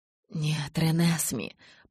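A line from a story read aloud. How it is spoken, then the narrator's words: Muttered, scolding. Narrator (Russian): Пробормотал Эдвард, как будто учил отродье хорошим манерам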